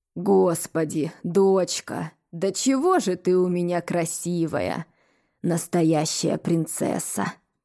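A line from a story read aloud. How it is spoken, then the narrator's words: Hoarse voice. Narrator (Russian): Охрипшим голосом произнес он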